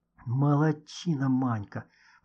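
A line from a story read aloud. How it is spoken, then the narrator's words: Whisper. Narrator (Russian): прошептал Никита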